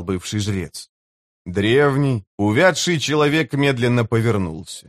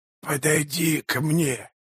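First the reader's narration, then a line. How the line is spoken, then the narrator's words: Hoarse rasp. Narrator (Russian): прохрипел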